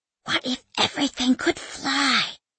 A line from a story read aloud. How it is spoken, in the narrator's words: She whispers to her gumboots